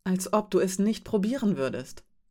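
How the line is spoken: Plain. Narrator (German): sagte Rasch

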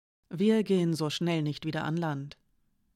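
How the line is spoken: Plain. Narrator (German): sagte sie

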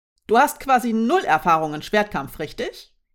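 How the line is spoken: Plain question. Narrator (German): fragte Ivanes

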